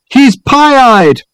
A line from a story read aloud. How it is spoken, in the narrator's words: his companions bawled happily